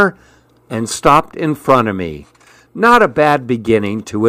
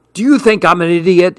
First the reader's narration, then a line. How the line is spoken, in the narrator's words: shouted